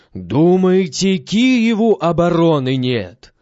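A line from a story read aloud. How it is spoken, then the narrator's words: Loud shouting. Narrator (Russian): громким голосом кричит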